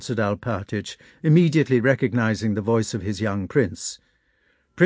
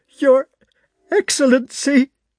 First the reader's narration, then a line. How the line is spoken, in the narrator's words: stammered Alpátych, and broke into sobs